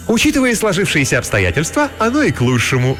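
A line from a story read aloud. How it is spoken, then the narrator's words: Joyful announcement. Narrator (Russian): радостно возвестила Летиция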